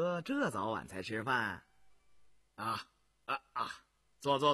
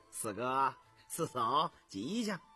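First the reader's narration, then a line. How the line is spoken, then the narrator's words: Cheerful giggling. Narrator (Chinese): 笑嘻嘻的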